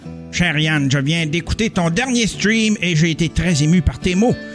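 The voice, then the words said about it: Thin little put-on voice. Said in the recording (French): “Avec sa voix un petit peu... pas nasillarde, mais... Il y a une petite voix comme ça.”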